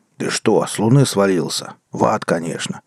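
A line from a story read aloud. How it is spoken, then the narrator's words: Grumbling old man. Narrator (Russian): заворчал в ответ старик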